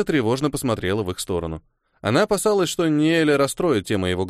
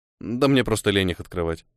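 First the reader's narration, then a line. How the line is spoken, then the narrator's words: Snorting chuckle. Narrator (Russian): хмыкнул он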